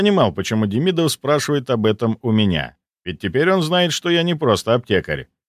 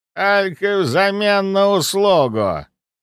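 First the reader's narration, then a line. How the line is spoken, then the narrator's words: Harsh creaking voice. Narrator (Russian): проскрипела она, будто железными когтями провели по моей душе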